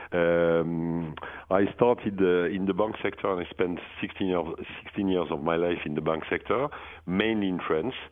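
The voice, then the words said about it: French accent. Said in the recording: “That's a French accent.”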